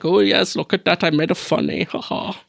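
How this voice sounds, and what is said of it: Failed attempt at German accent. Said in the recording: “That's not a German accent. ... You're going all over the world.”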